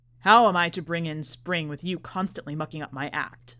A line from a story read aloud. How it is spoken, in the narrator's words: says the magician